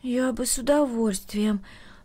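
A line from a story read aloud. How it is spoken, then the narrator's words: Timid girl. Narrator (Russian): робко начала девочка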